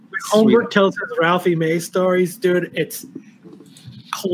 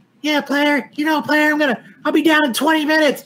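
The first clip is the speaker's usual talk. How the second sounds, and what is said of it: Ralphie May impression. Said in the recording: “Ralphie May voice ... pretty damn good Ralphie May impression”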